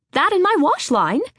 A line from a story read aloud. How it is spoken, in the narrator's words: Emma chirped